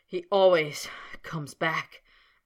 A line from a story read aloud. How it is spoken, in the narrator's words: panted Snape, grinding his teeth together